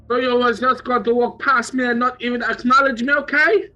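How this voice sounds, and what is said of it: Put-on foreign accent. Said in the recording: “Did you hear that accent? Some sad foreign fellow.”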